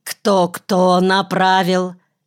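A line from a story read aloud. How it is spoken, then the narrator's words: Said angrily. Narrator (Russian): зло сказал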